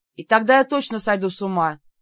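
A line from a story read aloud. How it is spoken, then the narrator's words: Loud snort. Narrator (Russian): громко фыркнула я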